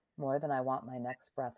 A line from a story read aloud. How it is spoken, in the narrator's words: she answered